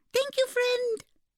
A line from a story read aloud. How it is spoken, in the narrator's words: squeaked the firefly